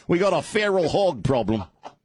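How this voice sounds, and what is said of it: Put-on Australian accent. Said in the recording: “I don't know why I can't say that without an Australian accent.”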